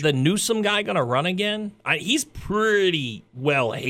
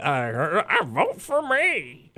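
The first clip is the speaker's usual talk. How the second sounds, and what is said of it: Imitates another person's odd voice. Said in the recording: “it's a pretty good impression ... Caitlyn has this odd ... Bruce had a weird little voice”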